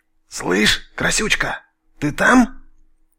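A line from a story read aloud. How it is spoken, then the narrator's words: Hoarse loud whisper. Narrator (Russian): чей-то хриплый голос громко зашептал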